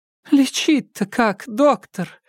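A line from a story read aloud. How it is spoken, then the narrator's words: Sobbing unhappy woman. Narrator (Russian): всхлипнула несчастная женщина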